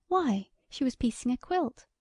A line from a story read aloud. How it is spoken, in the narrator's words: she exclaimed